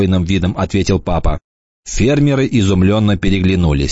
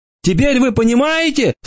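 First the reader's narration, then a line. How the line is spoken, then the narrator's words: Hopeful wailing shout. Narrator (Russian): с надеждой в голосе завопил червь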